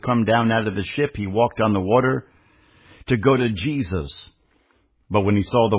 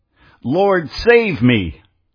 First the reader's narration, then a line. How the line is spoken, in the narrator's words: he cried, saying